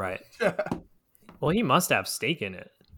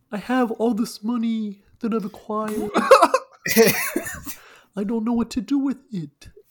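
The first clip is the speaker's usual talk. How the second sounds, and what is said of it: Impression of Rodney Mullen. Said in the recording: “Rodney Mullen ... That was a pretty good impression”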